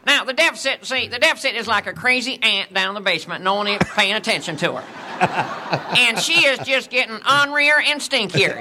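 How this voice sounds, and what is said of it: Good Ross Perot impression. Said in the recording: “So that's a good impression. ... Ross Perot.”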